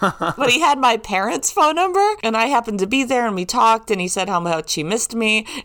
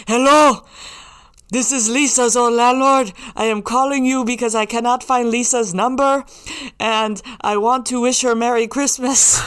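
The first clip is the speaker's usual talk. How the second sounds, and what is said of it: Impression of her old landlord. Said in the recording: “if you knew my landlord, if you knew Christos, that was a very good impression”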